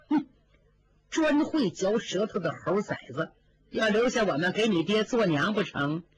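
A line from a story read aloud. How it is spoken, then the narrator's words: Cursing through gritted teeth. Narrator (Chinese): 尤二姐脸上笑着，却暗暗咬牙骂道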